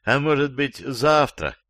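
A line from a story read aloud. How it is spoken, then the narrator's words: Timid request. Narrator (Russian): робко попросил Иван Иванович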